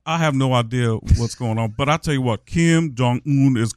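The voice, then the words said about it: Imitates another person's voice. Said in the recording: “Charles Barkley is doing your character ... You got to keep doing that impression of me”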